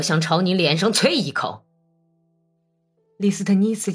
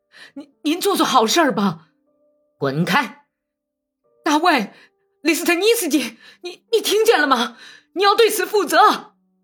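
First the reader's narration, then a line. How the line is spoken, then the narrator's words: Panting, pleading. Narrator (Chinese): 拉古井喘着粗气，央告说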